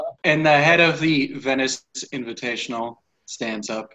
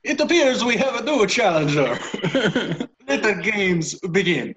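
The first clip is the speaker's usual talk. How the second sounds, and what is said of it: Put-on Italian accent. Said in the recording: “Oh, now I've got to do an Italian accent.”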